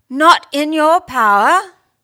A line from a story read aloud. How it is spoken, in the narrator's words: She seemed unaware that she had raised her voice